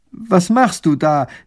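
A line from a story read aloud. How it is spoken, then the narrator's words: Called out. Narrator (German): ruft der erste Minister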